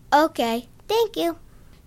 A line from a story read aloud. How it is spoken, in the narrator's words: Zinkoff said in his squeaky mouse-like voice